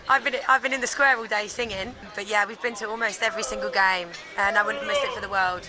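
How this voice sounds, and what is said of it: Hoarse, strained, nearly lost voice. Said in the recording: “sorry, my voice is gone. ... Because too much singing.”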